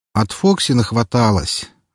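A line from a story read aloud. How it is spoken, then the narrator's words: Sighing, exaggerated suffering. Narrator (Russian): вздохнул, добавив в голос побольше страданий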